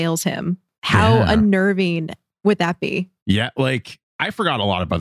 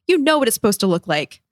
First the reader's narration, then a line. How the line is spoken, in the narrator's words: Zuko yells